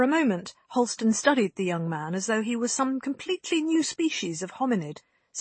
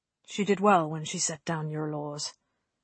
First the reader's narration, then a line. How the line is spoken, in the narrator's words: he murmured